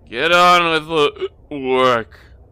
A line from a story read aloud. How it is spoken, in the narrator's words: growled the butler